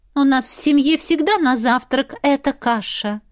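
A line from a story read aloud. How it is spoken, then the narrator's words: Haughty tone. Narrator (Russian): надменным тоном сообщила Кэти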